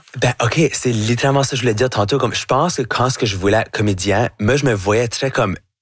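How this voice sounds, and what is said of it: Acadian French accent. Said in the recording (French): “votre accent acadien ... j'ai un accent qui va jamais être neutre”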